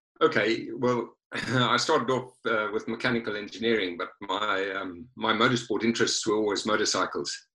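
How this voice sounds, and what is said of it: South African accent. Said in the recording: “you hail from South Africa, as we can tell by your accent.”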